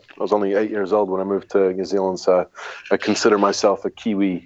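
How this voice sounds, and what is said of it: Unusual mixed English accent. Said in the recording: “I learned to speak English by watching American television, which is why I have this really weird accent.”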